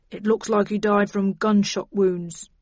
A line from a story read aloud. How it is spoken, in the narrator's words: he said grimly